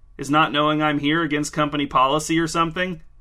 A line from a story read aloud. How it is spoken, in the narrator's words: Cliff laughed